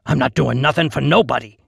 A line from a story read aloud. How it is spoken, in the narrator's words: he said gruffly